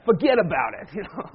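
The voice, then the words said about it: Put-on Bronx accent. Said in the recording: “In my best Bronx accent”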